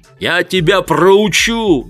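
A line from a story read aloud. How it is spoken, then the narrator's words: Yell. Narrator (Russian): заорал он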